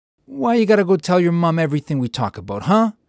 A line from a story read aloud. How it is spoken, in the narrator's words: Vincenzo barked at Angelo, a slight mist of spittle dispersing from his mouth